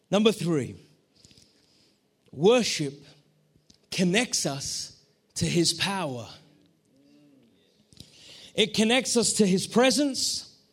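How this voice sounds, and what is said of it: Foreign-accented, slightly strained voice. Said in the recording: “Can you understand my accent? My vocal cords are a little bit confused.”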